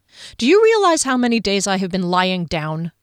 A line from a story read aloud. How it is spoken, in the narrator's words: Kier said irritably